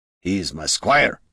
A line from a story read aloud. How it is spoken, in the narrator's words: growled